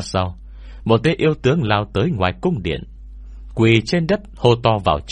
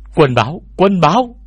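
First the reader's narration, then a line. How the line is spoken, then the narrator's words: Sudden loud shout from outside. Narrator (Vietnamese): đột nhiên một tiếng hét to vang lên từ ngoài cung điện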